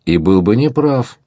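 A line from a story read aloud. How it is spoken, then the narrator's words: Cheerful objection. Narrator (Russian): весело возразил молодой человек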